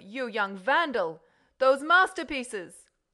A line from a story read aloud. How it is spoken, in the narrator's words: shouted the Count